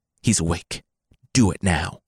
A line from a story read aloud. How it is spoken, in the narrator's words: in hushed whispers